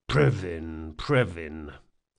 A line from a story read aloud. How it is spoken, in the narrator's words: muttered one of the guards